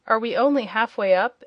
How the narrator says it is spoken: inquired the boy, in a discouraged tone

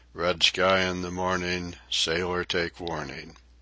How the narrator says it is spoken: our boat steerer ominously prophetically muttered

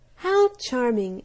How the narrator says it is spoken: exclaimed the butterfly

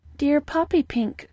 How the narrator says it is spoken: cried one

